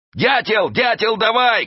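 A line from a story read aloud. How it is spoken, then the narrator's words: Shouting. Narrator (Russian): кричал он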